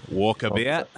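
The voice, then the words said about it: Fake Australian accent. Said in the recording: “in a really Australian, a fake Australian accent.”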